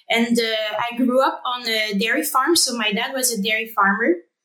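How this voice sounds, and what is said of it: French-accented English. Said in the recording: “some people might hear some of my French accent coming out”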